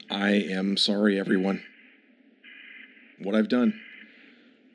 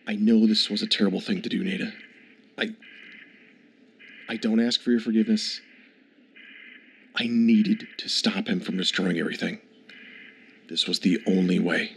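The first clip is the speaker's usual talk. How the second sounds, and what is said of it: Whispering. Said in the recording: “What are you whispering to her? ... You don't have to whisper”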